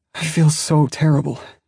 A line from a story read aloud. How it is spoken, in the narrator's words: moaned